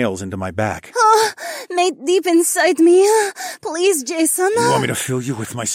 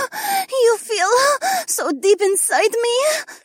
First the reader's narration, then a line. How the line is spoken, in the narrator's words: Adhara gasped between her moans